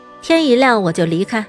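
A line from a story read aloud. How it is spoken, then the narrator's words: Cool, detached. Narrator (Chinese): 林鸾神色淡淡道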